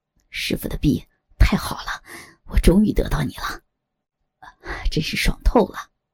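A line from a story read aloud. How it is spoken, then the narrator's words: Excited loud laughter. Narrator (Chinese): 左剑清忍不住兴奋的大笑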